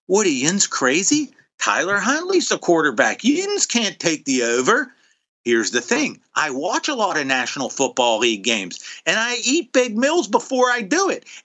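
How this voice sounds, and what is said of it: Put-on Pittsburgh Yinzer accent. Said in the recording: “in my Yinzer voice”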